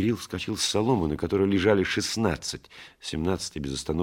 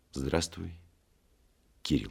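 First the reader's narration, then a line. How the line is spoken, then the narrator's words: Quiet, after a pause. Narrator (Russian): тихо сказал, помолчав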